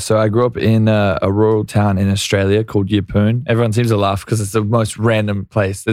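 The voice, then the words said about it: Mixed Australian accent with English tinges. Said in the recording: “Your accent is, it's kind of a medley... You said it's Australian... some words will sound a little bit more English”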